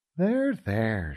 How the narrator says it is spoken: said, soothingly

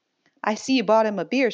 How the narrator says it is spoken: she said

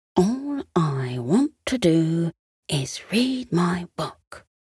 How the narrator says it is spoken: he whispered to himself

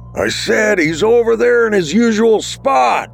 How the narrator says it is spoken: Bruce yelled, trying to overpower the music and crowd

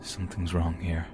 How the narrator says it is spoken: Under his breath, he said to me

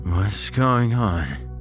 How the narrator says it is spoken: He asked, his speech slurred

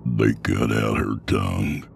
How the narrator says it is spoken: Sutter said, his voice thick

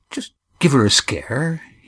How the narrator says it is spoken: he murmured

